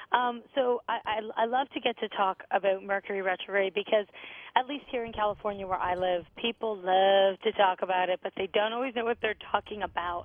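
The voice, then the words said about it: Crackly, slightly hoarse voice. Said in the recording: “you may hear my voice is a little crackly ... I can hear the static.”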